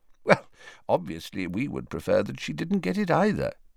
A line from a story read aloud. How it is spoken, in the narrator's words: said Dumbledore calmly